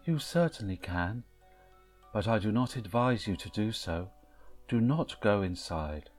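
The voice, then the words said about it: Sad voice. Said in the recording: “in a sad voice”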